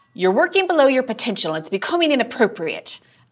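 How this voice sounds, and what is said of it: Poor put-on British accent. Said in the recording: “I have a terrible British accent.”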